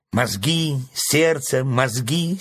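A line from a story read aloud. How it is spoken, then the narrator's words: Angry interruption. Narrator (Russian): сердито оборвала ворона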